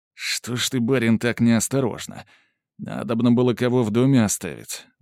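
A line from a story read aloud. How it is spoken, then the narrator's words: Mutter. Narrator (Russian): буркнул Владимир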